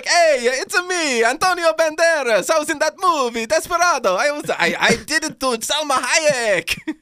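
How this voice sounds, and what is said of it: Bad Italian accent. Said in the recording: “Every accent I do is a bad Italian ... trying to do an Antonio Banderas impression, and it was Mario”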